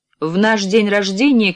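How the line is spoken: Shouted. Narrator (Russian): крикнула

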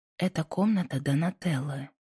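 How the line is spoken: Quiet. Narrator (Russian): тихо произнесла

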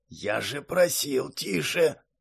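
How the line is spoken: Grumbling. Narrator (Russian): проворчал мастер Флориан

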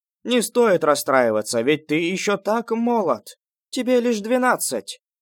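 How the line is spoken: Shout. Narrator (Russian): крикнула тетушка Ван

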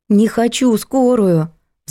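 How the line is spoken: Pleading. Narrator (Russian): взмолилась Надя

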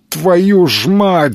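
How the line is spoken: Yelling. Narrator (Russian): заорал Бум

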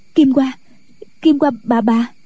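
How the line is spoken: Panicked stammering. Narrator (Vietnamese): Kỷ Hiểu Phù hớt hải, mặt tái nhợt, nói lắp bắp

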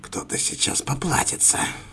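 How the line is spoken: Quiet growl. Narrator (Russian): тихо рычала мисс Кэролайн

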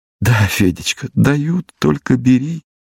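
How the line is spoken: Laughing through tears. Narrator (Russian): Смеялся я на его наивную речь, а у самого просто-таки не высыхали глаза

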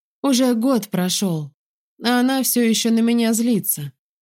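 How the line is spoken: Said sadly. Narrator (Russian): говорит Хилл как-то печально

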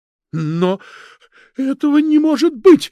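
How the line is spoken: Hysterical shrieking scream. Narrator (Russian): истерично, с визгом закричала Арина Игнатьевна

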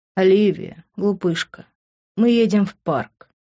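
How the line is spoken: Tender. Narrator (Russian): нежно произнес он

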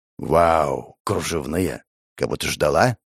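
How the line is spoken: Snorting smirk. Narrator (Russian): хмыкнул он

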